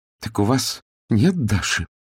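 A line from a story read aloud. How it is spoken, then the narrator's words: Trembling voice. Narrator (Russian): дрожащим голосом произнесла Алевтина Романовна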